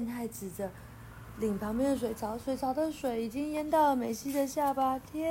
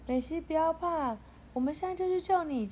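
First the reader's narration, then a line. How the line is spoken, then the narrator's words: Loud shout. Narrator (Chinese): 健太大喊着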